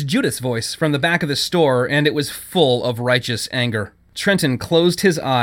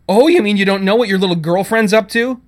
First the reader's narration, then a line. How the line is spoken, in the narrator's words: Judith said, her voice rising